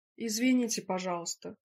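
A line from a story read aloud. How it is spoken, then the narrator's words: Shout. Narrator (Russian): крикнул он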